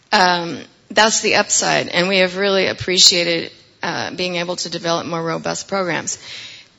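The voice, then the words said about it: Hoarse, strained voice. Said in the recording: “I'm losing my voice today”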